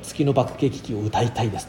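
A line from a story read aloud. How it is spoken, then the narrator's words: Plain. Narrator (Japanese): と言ってくれた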